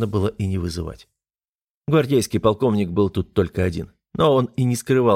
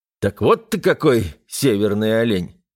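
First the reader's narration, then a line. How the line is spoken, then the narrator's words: Smirking grunt. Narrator (Russian): хмыкнул я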